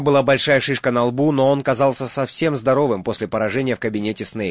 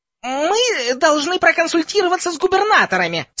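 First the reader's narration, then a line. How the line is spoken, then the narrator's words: Squeaky voice. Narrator (Russian): сказал профессор Флитвик писклявым голосом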